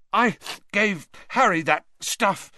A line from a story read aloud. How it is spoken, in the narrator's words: he choked